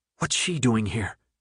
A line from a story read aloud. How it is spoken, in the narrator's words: She whispered, the spite evident in her voice